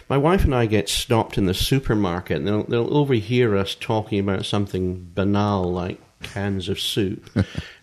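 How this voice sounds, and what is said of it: Distinctive non-American accent. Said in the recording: “this strange accent that I have”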